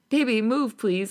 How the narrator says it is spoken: I laugh

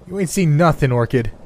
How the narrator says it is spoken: I yelled out far more arrogantly than I had a right to be

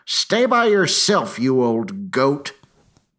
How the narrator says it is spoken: she hollered back

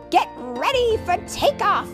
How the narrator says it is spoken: he cried

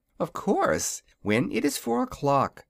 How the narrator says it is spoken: she replied, with a laugh at his startled expression

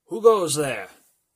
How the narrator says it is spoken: Thomas called out

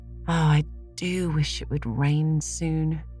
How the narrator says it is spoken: sighed Anne

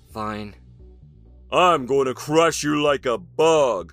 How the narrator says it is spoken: Ryan grumbled

